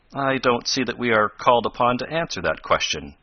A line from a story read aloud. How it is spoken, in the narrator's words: replied Professor Bumper stiffly